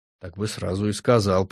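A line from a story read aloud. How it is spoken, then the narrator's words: Grumbling. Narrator (Russian): проворчала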